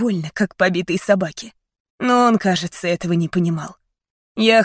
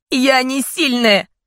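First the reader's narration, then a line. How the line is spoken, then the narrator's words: Shouting. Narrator (Russian): прокричала я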